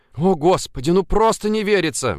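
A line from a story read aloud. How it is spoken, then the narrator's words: Excited breathless exclamation. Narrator (Russian): взволнованно выдохнула Ульяна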